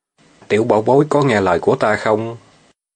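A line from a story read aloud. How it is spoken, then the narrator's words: Lowered voice. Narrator (Vietnamese): Hạng Thiếu Long hạ giọng nói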